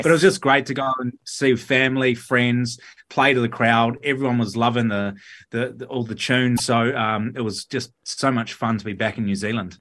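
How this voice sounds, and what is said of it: New Zealand accent. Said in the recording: “do you really ham up the Kiwi accent? ... Kiwis think I sound more Australian ... you've really cracked the Kiwi accent ... it sounds like you're just fresh off the plane from Queenstown”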